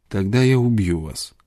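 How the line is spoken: Calm, dispassionate tone. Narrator (Russian): продолжал Корлис тем же спокойным, бесстрастным тоном

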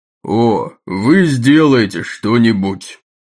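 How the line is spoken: Said loudly. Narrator (Russian): громко сказал Джеймс Тайгерт

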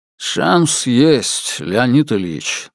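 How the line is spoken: Muffled, husky voice. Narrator (Russian): начал он своим глуховатым голосом

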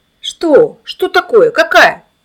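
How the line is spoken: Crowd shouting. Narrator (Russian): закричали вокруг

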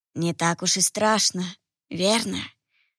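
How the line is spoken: Sudden familiar husky voice. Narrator (Russian): вдруг сказал позади меня знакомый хрипловатый голос

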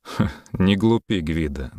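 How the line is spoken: Mocking. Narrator (Russian): насмешливо сказал Йолн

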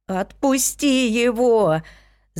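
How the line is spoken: Screaming. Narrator (Russian): закричала я

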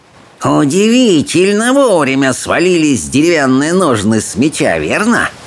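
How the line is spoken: Spitting hiss. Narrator (Russian): прошипел он, брызжа слюной

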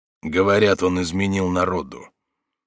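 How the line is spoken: Gloomy. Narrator (Russian): Он мрачно произнес

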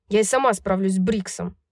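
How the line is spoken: Growling. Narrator (Russian): прорычала Даника

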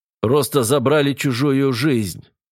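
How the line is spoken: Through gritted teeth. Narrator (Russian): сквозь зубы проговорил Петр

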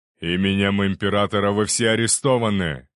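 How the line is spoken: Thundering voice over noise. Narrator (Russian): прогремел голос второго принца, перекрывая шум и крики удивления

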